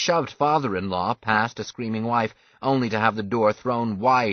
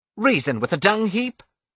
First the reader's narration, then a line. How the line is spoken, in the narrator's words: cried Father, eyes blazing